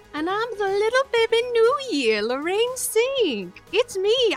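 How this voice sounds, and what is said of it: Put-on accent wandering all over. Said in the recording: “The accent went all over the place on that round trip”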